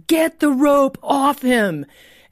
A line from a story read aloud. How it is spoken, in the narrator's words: the Holy Spirit shouting